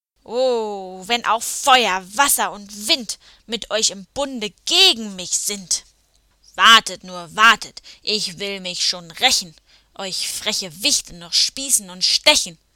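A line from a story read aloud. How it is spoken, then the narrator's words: Angry hiss. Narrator (German): So fauchte er und zerrte dabei wütend an dem Baum, unter dem er festgeklemmt lag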